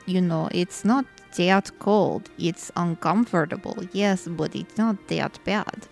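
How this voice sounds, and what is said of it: Heavy put-on foreign accent. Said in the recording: “my accent is not that heavy... He says he can't understand it”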